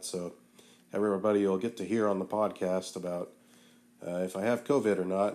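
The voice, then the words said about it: Weak, unwell-sounding voice. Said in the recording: “As you can maybe tell, my voice isn't doing great. I've had what I believe is a cold.”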